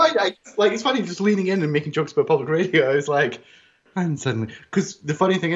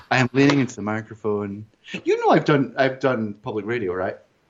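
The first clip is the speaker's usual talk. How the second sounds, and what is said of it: NPR-style public radio voice, close-miked. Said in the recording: “I'm doing the NPR voice.”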